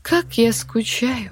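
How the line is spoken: Soft, melodic. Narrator (Russian): неожиданно тихо и мелодично произнесла Дельфина

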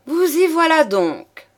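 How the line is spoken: Lady exclaiming. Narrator (French): s'écria la dame

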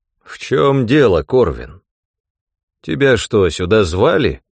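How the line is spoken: Dry question. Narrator (Russian): сухо спросил он

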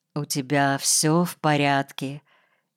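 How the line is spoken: Quiet, soft muted voice. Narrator (Russian): тихо спросила она, и матовый звук ее голоса

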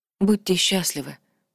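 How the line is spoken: Whispered. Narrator (Russian): прошептала Аэри

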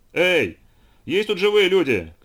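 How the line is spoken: Shouting. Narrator (Russian): крикнул Дево

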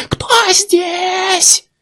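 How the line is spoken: Shrieked. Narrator (Russian): Завизжал

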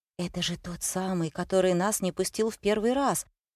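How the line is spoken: Whisper. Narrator (Russian): прошептал Сергей

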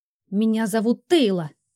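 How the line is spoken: Hiss. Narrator (Russian): прошипела я

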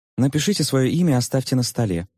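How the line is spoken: Quick speech. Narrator (Russian): быстро сказала

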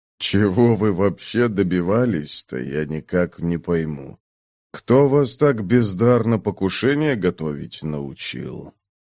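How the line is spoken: Mocking king's question. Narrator (Russian): Глумливо спросил король

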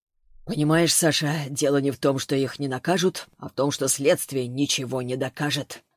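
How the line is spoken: Gloomy. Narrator (Russian): мрачно сказал Данилов

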